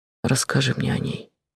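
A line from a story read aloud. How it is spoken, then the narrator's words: Quiet request. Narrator (Russian): попросил тихо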